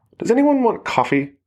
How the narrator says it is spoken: Megan asked, her voice thin as if she was already uncomfortable

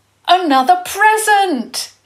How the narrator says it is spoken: he shouted

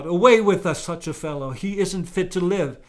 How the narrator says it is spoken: They yelled

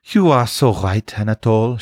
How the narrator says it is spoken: she said sadly

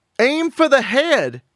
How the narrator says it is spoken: Shelley May yelled

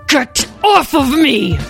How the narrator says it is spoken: growled Shakatala

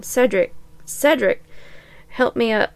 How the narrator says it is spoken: Cedric croaked

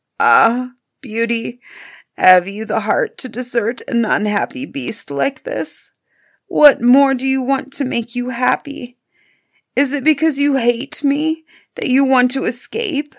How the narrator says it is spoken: the beast seemed sadly distressed and cried miserably

